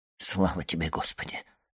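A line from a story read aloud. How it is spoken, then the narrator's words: Whisper. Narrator (Russian): прошептал он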